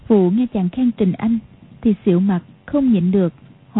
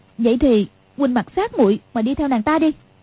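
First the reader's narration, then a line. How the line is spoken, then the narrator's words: Angry. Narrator (Vietnamese): Quách Phù tức giận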